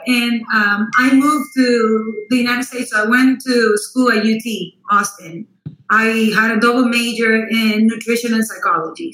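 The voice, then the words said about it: Costa Rican Spanish accent. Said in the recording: “I was born and raised in Costa Rica, so that explains the accent.”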